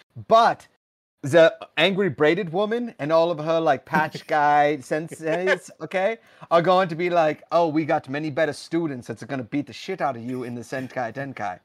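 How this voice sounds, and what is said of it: Put-on accent drifting South African. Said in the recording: “The accent changed a bit there. ... You went a little South African there.”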